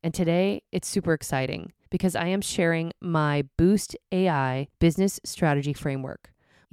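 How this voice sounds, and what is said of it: Voice sounds off, cold-affected. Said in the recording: “I got a little cold today. My voice may not sound quite like you recognize it”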